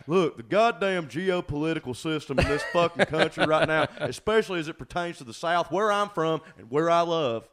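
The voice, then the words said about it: Imitates another person's voice. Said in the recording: “This is how to do a Trey Crowder impression. You first do a Dr. Phil impression ... and it's also Mr. Mackey. It's like a little bit of both.”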